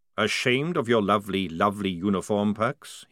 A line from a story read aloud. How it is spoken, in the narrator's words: he said